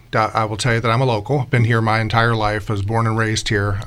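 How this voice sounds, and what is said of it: Spotsylvania Virginia local accent. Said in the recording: “the Spotsylvania accent”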